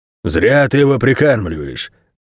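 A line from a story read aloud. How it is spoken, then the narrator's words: Disapproving tone. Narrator (Russian): сказал страж осуждающим тоном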